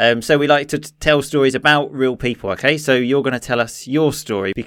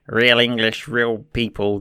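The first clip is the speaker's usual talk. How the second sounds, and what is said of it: Put-on American accent. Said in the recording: “as my American friend says ... That's the best American accent I can do.”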